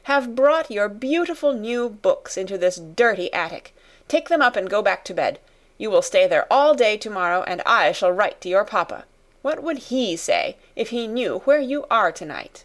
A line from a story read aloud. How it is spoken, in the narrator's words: turn on her fiercely